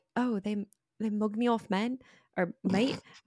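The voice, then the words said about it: Not very good British accent. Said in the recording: “I don't have a very good British accent.”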